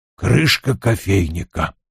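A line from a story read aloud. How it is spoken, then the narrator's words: Mutter. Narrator (Russian): пробормотал он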